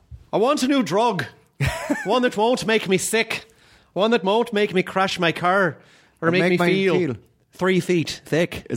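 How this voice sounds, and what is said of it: Brendan Gleeson impression, Irish lisp. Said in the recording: “I try to do the Brendan Gleeson thing where he does the little bit of a lisp. ... It's just a little bit of a lisp. ... he's got the most beautiful accent. ... I'm sure if you're Irish, it's very offensive.”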